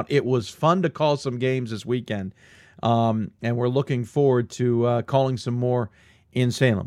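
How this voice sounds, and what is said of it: Worn-out, tired voice. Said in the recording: “You can hear my voice is a little worn out.”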